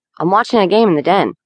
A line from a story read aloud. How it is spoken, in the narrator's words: Saul answered, a little too impatiently